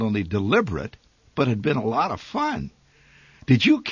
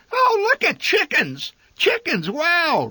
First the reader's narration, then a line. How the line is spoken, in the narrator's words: Randy hollered ecstatically